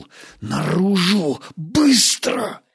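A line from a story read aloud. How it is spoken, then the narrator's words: Hiss. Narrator (Russian): Стас прошипел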